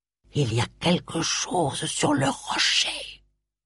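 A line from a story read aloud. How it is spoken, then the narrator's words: Hissing, stifling a cry. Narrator (French): Réprimant un cri, siffla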